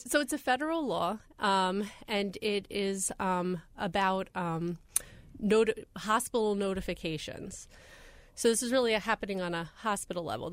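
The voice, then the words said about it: Congested voice from a cold. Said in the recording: “Getting over a cold from a week ago, so this isn't my radio voice.”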